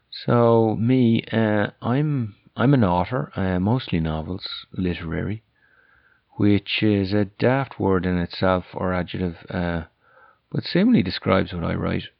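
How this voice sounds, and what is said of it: Irish accent. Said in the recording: “as you can probably guess from my accent, I'm Irish, although that'd probably be debated back in Ireland. The accent, that is. They'd say I wouldn't have an Irish accent.”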